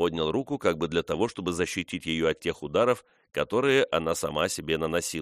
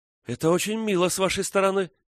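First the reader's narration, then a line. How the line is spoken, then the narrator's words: Condescending exclamation. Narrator (Russian): воскликнула она снисходительно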